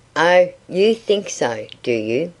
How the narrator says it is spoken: asked

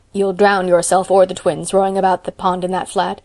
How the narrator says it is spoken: grumbled Marilla

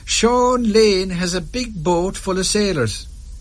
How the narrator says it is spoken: he cried

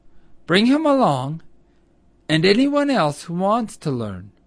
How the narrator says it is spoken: replied Old Mother Nature kindly

